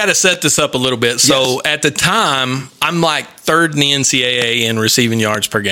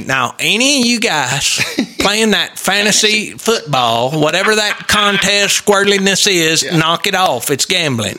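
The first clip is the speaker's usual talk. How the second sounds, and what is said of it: Impression of coach Spike Dykes. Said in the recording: “that's a great impersonation of Spike you do”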